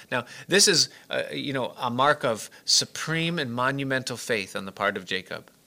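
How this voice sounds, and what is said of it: Heavily sarcastic tone. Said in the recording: “hear the sarcasm in my voice ... I'm being extremely sarcastic in this whole thing”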